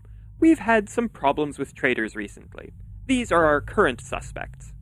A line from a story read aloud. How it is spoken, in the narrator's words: MJ said in a conversational tone